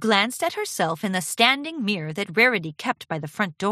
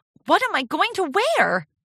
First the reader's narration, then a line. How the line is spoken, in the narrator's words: Charity squealed